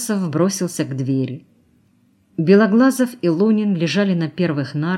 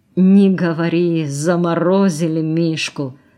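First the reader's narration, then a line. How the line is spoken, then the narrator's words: Groaning. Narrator (Russian): простонал Белоглазов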